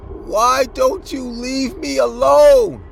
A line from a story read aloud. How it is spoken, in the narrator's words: The man then screamed and said